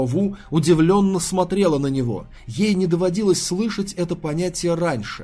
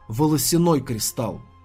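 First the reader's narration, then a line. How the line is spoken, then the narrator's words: Solemn reply. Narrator (Russian): Тан Сань торжественно ответил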